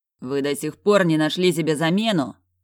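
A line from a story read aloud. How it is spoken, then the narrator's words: Growling. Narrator (Russian): прорычал я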